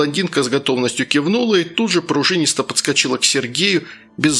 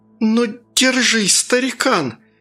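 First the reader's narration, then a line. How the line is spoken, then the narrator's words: Muffled young woman. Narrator (Russian): глухо выговорила девица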